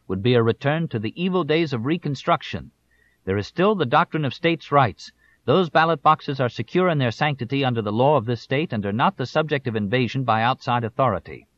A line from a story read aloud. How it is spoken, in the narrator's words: shouted